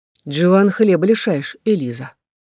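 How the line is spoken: Quiet interruption. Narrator (Russian): тихо прервала меня Клэр

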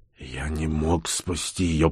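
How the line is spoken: Whisper, meant loud. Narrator (Russian): прошептал Бур, хотя хотел сказать это громко и уверенно

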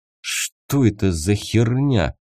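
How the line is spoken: Trembling voice. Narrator (Russian): дрогнувшим голосом выдал он

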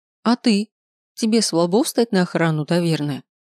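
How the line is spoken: Sharp question. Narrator (Russian): спросила я резким голосом

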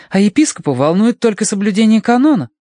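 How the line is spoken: Indignant. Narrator (Russian): возмущенно делилась она с мистером Данворти

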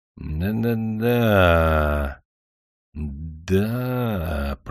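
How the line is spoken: Drawn-out voice. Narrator (Russian): протянул он

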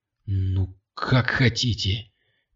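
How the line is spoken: Quiet. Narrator (Russian): тихо сказал Кирилл

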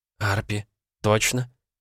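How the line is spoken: Whispering. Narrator (Russian): прошептала мама

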